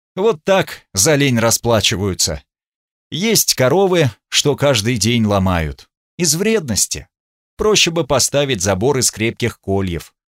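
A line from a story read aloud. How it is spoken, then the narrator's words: Chuckle. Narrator (Russian): Гунтер хохотнул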